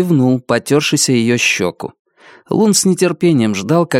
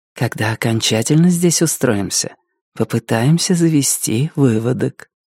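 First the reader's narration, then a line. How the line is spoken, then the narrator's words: Whispering. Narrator (Russian): она прошептала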